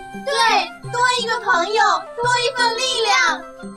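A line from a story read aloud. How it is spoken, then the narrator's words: Shouting in unison. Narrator (Chinese): 小兔子、小鸭子也齐声喊道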